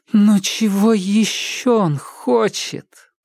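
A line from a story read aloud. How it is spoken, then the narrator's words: Moaning. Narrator (Russian): простонала девушка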